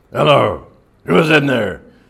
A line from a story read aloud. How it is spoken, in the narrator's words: roughly demanded a loud, coarse voice